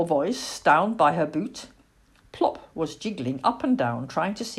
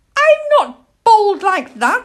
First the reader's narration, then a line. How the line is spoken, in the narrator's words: said indignantly